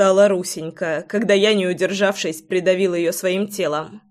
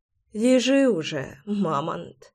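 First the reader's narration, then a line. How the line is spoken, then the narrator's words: Whispered. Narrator (Russian): прошептала она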